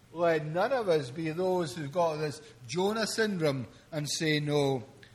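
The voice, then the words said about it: Exotic accent from across the Atlantic. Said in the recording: “some preacher from across the Atlantic with a kind of exotic accent”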